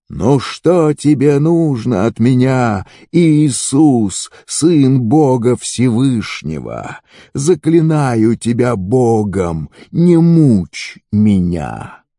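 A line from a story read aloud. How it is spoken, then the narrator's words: Loud cry. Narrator (Russian): громко закричал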